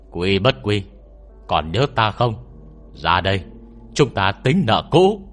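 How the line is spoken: Roaring, loud shout. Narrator (Vietnamese): Nó gầm lên một tiếng về phía động phủ rồi hét lớn

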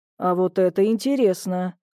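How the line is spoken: Thoughtful mutter. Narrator (Russian): задумчиво пробормотал он

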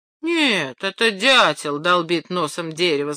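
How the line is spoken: Mocking. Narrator (Russian): сказал Пьер насмешливо

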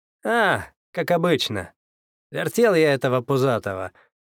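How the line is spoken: Chuckling. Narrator (Russian): хохотнул я

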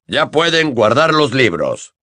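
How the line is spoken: Grumbling. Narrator (Spanish): gruñó

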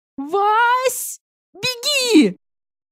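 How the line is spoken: Ear-splitting shriek. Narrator (Russian): От визга Зайцевой у меня чуть барабанные перепонки не лопнули

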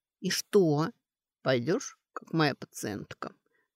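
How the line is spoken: Solemn. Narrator (Russian): торжественно сказал травник

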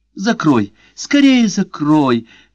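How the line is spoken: Shouted. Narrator (Russian): крикнула Мария Грация

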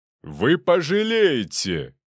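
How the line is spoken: Shouted after someone. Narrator (Russian): выкрикнул мне в спину Игорь Николаевич

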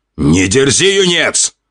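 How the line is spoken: Growled by a man. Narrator (Russian): Рыкнул мужчина

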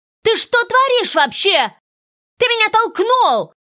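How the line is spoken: Girl shouting. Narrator (Russian): закричала девчонка

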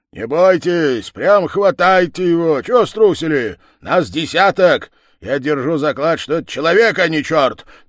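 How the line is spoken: Village head shouting. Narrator (Russian): так кричал голова

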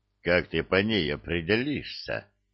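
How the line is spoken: Grumbling. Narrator (Russian): бурчал Простаков

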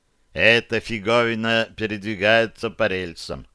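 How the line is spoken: Plain. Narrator (Russian): сказал Бозл

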